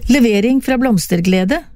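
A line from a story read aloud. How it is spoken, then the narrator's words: Chuckling. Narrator (Norwegian): klukket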